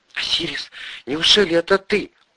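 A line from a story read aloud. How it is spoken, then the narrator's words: Whispered, familiar woman's voice. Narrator (Russian): прошептала незнакомка голосом Ольги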